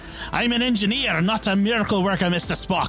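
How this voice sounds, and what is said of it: Put-on Scottish accent, sounds Irish. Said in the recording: “that was a Scottish accent... That was just Irish with bits in.”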